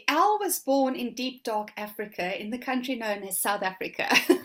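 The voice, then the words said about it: Noticeable non-New Zealand English accent. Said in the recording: “There's obviously an accent there that we might pick up on, ... I know you are living in New Zealand now, but that's not the accent.”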